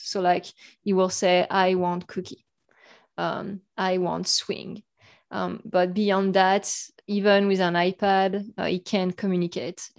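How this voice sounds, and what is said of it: French accent. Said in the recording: “my mom, who's in France, you probably hear my accent”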